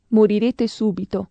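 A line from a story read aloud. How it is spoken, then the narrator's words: Plain. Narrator (Italian): gli rispose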